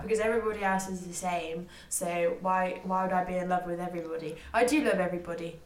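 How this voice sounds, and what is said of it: Speaker's own distinct accent. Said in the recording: “you're attracted to my accent ... your accent I'm very attracted to”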